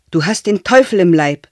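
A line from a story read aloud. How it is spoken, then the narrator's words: Old woman screaming. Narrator (German): schrie die Alte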